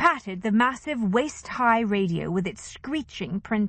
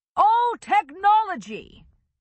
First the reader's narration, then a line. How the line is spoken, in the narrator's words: Chester shouted